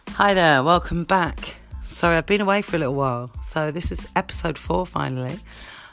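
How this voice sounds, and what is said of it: Croaky, hoarse voice. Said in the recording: “I'm a little bit croaky this week. ... I've got a bit of a sore throat, ... apologies for the midnight radio sounds”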